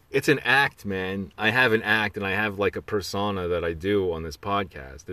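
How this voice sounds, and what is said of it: East Coast accent. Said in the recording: “I almost have like an accent for this podcast specifically ... It sounds kind of East Coast ... this East Coast sort of style of talking”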